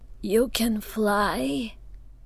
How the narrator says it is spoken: Zoya was so startled she choked

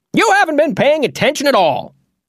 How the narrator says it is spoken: Oz snapped

